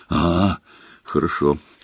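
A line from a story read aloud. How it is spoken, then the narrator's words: Relieved sigh. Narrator (Russian): облегченно вздохнул Рон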